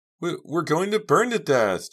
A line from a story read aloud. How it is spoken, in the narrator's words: Jade sobbed